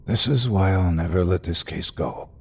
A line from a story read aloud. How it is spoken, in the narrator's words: he said, his voice barely louder than a whisper